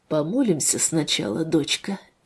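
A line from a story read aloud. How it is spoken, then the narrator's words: Quiet. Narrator (Russian): А отец тихо произнес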